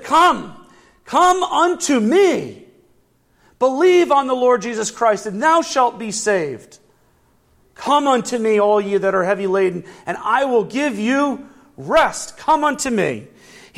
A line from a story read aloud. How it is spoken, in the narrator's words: he cried out to you, and he said